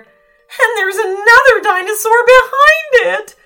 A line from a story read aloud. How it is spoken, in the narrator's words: wailed the third mountaineer